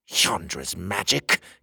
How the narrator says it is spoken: the king spat

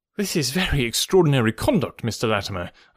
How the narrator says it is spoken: I stammered

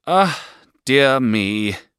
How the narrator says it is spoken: sighed Miss Murdstone

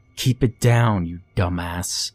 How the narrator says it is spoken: Leonard snarled

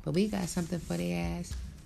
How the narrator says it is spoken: they giggled

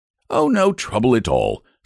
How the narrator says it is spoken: said the circus man cheerfully

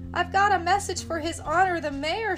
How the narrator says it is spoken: shouted Tommy

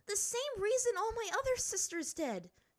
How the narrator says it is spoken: she shouted at the older man

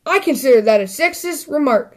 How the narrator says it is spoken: snapped Sister angrily

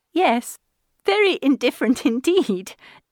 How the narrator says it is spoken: said Elizabeth, laughingly

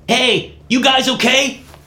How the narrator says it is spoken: She yelled

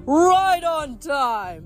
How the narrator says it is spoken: the giant king bellowed

